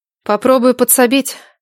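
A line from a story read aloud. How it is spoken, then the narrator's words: Gloomy promise. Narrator (Russian): мрачно обещала Надежда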